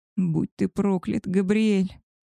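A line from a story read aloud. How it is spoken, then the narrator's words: Moan. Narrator (Russian): Простонала я ему в губы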